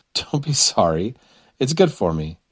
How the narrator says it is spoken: laughed

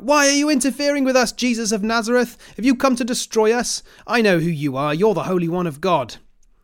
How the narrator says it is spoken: a man in the synagogue who was possessed by an evil spirit cried out

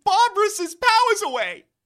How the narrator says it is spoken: He shouts

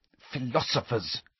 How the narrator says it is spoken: hissed Hermione

